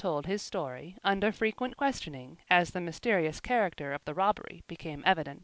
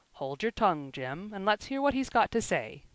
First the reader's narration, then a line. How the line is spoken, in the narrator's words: said the landlord